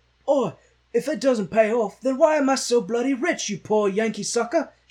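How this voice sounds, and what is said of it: Poor imitation of another person's voice. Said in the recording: “That was a very terrible, impersonation of Bono”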